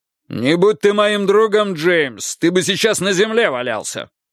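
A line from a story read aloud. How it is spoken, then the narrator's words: Shouted reply. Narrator (Russian): крикнул в ответ Пейн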